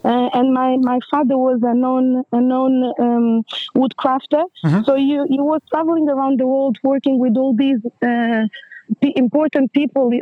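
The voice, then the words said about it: Portuguese-accented English. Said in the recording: “I've got this accent, ... I thought it was Portuguese indeed ... the accent is still there”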